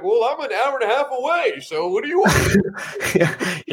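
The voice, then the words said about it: Put-on accent as sheriff. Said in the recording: “That was a great accent.”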